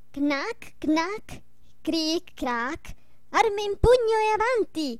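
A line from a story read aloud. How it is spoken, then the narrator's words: Ringing shout. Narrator (Italian): Stiaccianoci gridò con voce squillante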